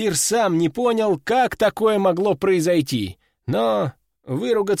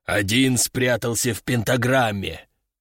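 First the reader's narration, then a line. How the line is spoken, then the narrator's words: Growled. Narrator (Russian): прорычал первый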